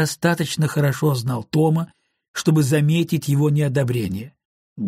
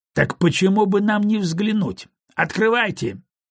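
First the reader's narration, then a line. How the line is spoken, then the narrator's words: Rough command. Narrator (Russian): грубо приказал он рабочим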